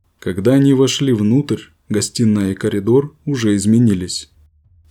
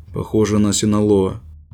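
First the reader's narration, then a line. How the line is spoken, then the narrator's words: Gloomy. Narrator (Russian): Заместитель директора мрачно произнес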